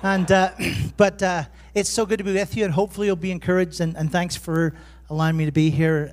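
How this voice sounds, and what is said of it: Irish accent. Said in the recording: “I suppose I have an Irish accent here”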